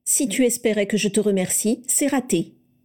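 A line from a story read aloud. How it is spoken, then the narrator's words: Curt. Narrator (French): dit-elle sèchement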